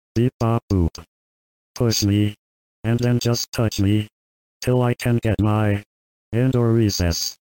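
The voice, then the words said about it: Robot voice. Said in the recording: “I am a robot voice.”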